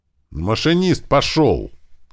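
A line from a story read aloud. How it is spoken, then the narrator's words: Barked. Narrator (Russian): рявкнул Туман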